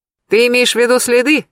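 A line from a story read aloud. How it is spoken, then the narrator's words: Cheerful question. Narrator (Russian): весело поинтересовался Сергей Львович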